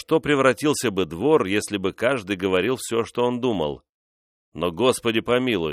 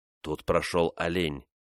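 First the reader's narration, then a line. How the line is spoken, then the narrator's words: Whisper. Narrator (Russian): прошептал Грин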